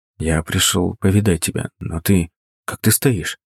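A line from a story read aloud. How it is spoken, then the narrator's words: Gentle quiet question. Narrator (Russian): Стараясь не обидеть ее, тихо спросил я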